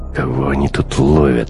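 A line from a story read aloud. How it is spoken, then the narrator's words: Irritated question. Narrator (Russian): раздраженно спросил Бруно после очередной проверки документов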